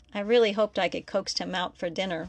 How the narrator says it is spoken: Miguel said

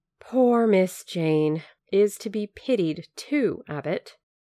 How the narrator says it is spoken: sighed and said

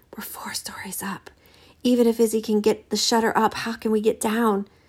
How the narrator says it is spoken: March whispered close to her ear

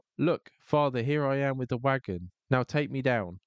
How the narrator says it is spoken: he cried out

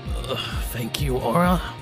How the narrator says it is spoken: he grunted

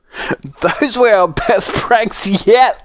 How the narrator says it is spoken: laughed Harold

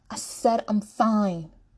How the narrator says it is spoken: Aurora shouts

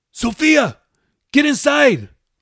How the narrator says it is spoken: yelled

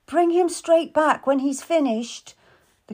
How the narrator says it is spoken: the queen called out

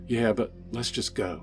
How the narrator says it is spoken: she said quietly

